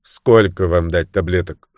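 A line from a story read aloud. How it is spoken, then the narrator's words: Dry question. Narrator (Russian): сухо спросила она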